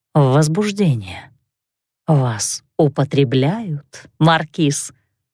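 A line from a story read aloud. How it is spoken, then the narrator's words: Purring inner voice. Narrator (Russian): промурлыкала в голове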